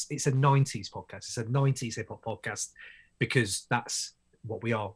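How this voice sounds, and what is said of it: British accent. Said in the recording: “from the UK, obviously, from my accent, you can tell.”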